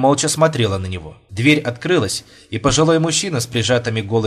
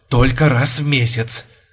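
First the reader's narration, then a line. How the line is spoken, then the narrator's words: Rapturous whisper. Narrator (Russian): восторженным шепотом повторил он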